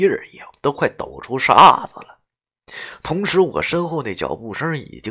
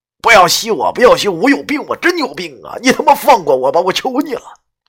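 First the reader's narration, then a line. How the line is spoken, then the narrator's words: Desperate roar. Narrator (Chinese): 我吼出这句话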